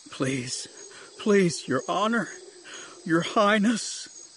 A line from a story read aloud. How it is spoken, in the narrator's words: he sobbed, face down into the jungle floor